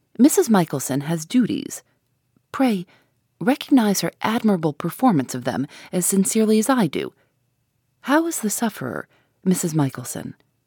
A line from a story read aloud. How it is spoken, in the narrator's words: observed his lordship kindly